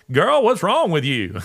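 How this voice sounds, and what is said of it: Sonorous Southern accent. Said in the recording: “that old Southern, sonorous Southern accent”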